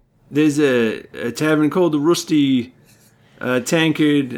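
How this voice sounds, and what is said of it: Wavering put-on accent, drifting Australian. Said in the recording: “I can't place my accent. It's all over the place... trying to do this accent out of nowhere. Now it's Australian, I think... It does sound that way.”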